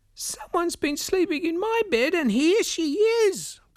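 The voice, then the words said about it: Small baby-like voice. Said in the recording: “the baby bear said in a baby voice”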